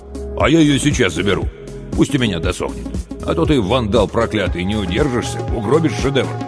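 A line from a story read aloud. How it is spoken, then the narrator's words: Serious tone. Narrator (Russian): Сашка абсолютно серьезным тоном добавил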